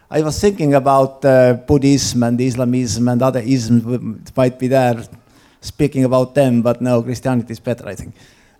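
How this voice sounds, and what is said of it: East European accent. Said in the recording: “my East European accent”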